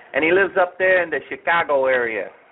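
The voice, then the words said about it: Put-on Chicago accent. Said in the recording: “I did my best Pulaski voice there ... You sound like uh, Chicago born and bred right there.”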